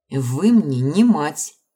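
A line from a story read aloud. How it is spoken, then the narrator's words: Scornful snort. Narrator (Russian): фыркнула я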